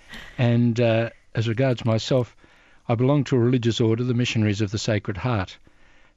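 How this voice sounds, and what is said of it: Australian accent. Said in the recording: “I don't know whether your listeners can detect accents, but I'm from Australia”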